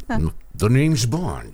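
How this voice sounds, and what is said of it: James Bond impression. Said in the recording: “You do a better Carson than you do a James Bond ... If you would have used that accent.”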